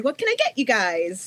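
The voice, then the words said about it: High-pitched customer service voice. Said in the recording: “customer service voice. This is not my real voice when I go to a table. It's about 1,000 octaves higher.”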